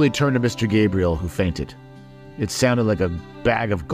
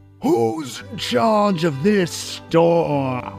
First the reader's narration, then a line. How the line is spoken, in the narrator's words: In his booming voice